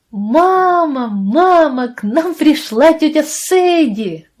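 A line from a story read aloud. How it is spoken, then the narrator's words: Screaming. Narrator (Russian): вопили они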